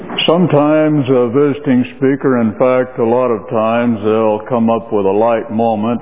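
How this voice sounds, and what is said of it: Western American accent. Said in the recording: “my accent, it's Western American ... Emphasis on the Western, emphasis on the American.”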